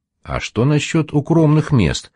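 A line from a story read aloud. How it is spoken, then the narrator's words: Plain. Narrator (Russian): спросил Гвоздарь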